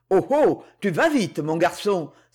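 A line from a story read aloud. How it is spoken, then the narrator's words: Exclaimed. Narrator (French): s'écria Mozac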